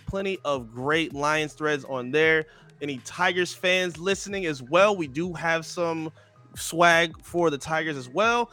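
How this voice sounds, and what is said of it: Announcer-style commercial voice. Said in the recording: “put on my best commercial voice.”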